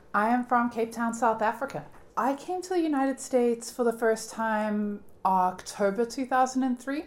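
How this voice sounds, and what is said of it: South African accent. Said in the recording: “You've got a lovely accent.”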